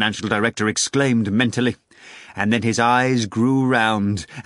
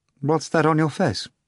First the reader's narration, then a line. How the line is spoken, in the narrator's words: asked unsteadily